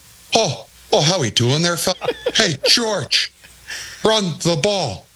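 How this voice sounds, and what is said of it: Imitates another person's accented voice. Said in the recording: “what a great accent.”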